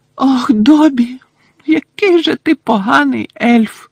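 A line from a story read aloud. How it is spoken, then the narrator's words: Tearful moan. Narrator (Ukrainian): простогнала Вінкі, знову заливаючись слізьми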